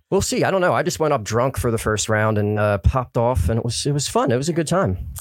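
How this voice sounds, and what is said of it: Delco (Delaware County) accent. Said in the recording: “my accent, which is like a Delco kind of accent.”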